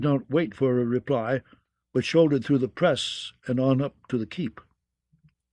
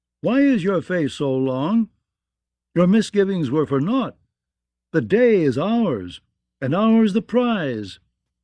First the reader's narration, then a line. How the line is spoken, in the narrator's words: called out